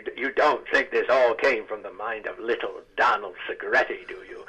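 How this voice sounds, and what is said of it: Hal Holbrook impression as Deep Throat. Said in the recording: “I would impersonate Hal Holbrook to Hal Holbrook. ... I do a pretty good Hal impression ... So I would do him as Deep Throat”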